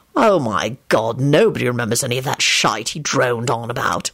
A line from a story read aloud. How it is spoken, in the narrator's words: Lupin snapped